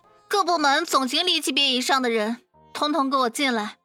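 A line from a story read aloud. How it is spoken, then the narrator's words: Urgent announcement. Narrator (Chinese): 他用最紧急的呼叫对全公司的人说道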